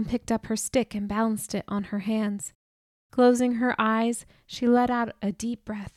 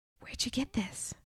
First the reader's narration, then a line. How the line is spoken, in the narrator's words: whispered